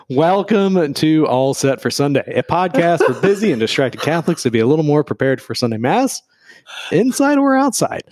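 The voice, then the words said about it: Hoarse, low sultry voice. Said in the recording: “I like your sultry tones today ... I'm losing my voice a little bit ... you sound like you're a radio host for jazz”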